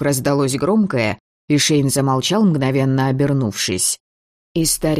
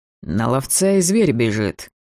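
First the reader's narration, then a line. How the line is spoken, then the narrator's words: Anticipatory mutter. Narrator (Russian): пробормотал Шейн предвкушающим тоном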